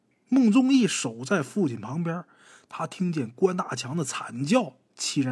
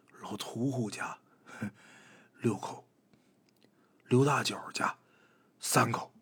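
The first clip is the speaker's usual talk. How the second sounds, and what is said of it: Quiet murmured counting. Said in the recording (Chinese): “小声数着”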